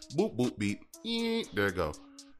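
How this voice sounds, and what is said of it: Imitated machine beeping sounds. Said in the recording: “That was a pretty good impression.”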